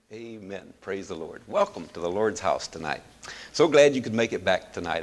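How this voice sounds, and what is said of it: Hoarse, fading voice. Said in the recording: “Seems like I'm starting to lose my voice.”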